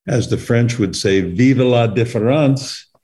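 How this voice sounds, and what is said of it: Poor imitation French accent. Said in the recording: “That's not a very good French accent”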